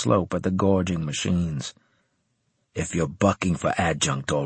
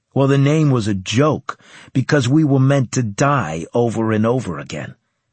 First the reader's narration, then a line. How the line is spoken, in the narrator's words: he said bitterly